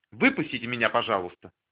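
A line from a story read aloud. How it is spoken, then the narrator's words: Hurried woman's voice. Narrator (Russian): торопливо сказала женщина-лифтерша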